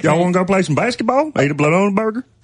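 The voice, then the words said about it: Put-on Georgia Southern accent. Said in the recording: “people from like Georgia who have a totally different accent”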